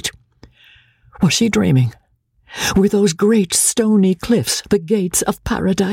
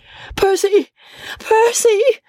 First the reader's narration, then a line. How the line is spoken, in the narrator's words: she shrieked hysterically, tortured between doubt and hope